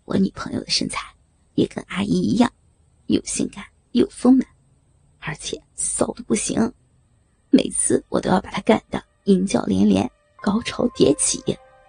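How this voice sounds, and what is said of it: Quiet, hushed voice. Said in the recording (Chinese): “小声的补充了一句”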